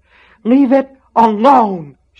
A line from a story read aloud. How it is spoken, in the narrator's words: she screamed